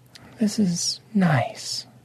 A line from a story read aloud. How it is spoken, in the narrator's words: Lady Obsidian said softly